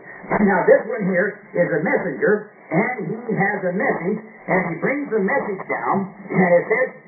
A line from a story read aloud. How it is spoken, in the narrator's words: He roars as like to a lion